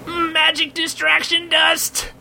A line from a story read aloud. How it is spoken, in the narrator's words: yelled the goblin